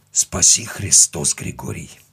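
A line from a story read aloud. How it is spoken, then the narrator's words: Almost whispering. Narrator (Russian): сказал он уже почти шепотом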